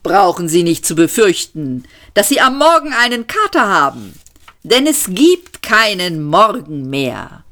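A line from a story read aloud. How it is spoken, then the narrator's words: Cheerful call. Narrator (German): rief er fröhlich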